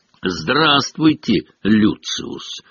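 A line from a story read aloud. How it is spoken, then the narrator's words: Cold greeting. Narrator (Russian): холодно приветствовал его мистер Уизли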